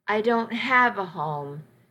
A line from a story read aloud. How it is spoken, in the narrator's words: she said flatly